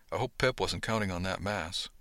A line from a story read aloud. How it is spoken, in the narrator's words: I mumbled to Beverly